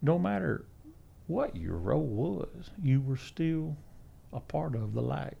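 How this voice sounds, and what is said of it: Southern US country accent. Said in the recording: “I sound like Hank Hill, you know, so if you could edit some kind of fancy software that takes away the country accent”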